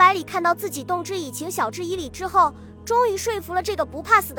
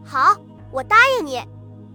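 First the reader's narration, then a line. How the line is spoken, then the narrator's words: Loud, eager. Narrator (Chinese): 郑九 大声说道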